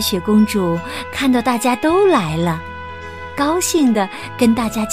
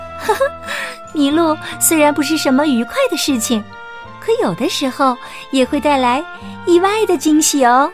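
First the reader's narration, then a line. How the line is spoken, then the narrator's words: Laughing. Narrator (Chinese): 他笑着说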